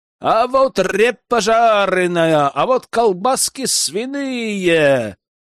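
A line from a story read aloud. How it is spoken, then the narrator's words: Shout. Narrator (Russian): кричал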